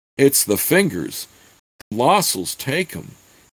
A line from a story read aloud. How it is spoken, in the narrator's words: he managed to stammer